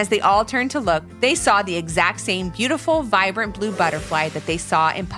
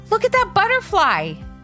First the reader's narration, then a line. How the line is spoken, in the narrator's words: called out